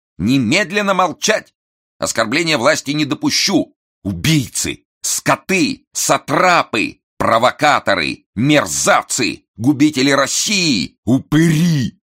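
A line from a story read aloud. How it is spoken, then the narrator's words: Angry shouting. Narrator (Russian): кричала Несвицкая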